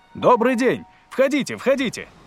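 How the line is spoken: Shouted. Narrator (Russian): крикнул он

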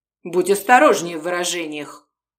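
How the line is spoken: Cold command. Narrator (Russian): холодно велел Орест

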